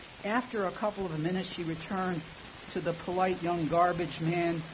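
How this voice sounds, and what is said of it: Usual voice. Nothing is said of it.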